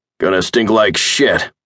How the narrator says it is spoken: Hutchins yelled

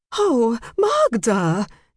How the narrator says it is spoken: Jane exclaimed loudly

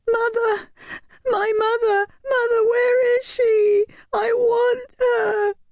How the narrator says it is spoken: she wailed piteously, her small body trembling in fear

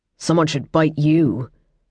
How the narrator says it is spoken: Riaz responded in a near snarl

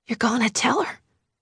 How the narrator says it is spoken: whispers

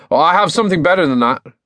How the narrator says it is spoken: Finn needed something to rescue his pride, so he blurted out

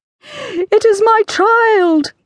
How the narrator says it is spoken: cried out as she rushed past the king so violently

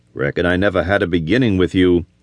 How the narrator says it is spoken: replied bitterly

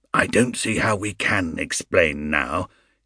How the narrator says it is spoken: hissed Mr

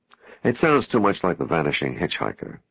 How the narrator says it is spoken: Kyle laughed

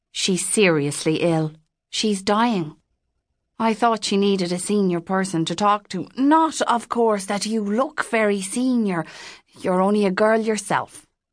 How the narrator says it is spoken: the priest said

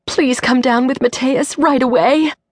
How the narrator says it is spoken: Dana pleaded

